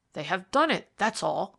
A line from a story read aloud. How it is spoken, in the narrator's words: cried Dufrayer